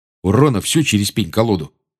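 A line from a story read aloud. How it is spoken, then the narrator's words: Gruff mutter. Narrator (Russian): буркнул Джордж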